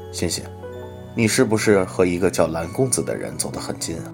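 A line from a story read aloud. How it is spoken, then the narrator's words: Laughing mother. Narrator (Chinese): 他妈妈笑着说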